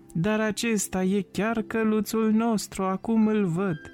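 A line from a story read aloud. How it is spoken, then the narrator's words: Child shouting joyfully. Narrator (Romanian): băiețelul a strigat bucuros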